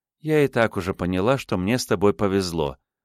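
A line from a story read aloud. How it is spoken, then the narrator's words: Smiling, warm. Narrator (Russian): улыбнулась Лиза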